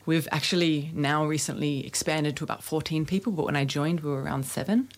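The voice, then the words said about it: Australian accent. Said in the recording (Dutch): “You have a nice accent. ... Australian, yes.”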